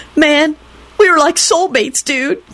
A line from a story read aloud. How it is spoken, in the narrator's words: Kenny wailed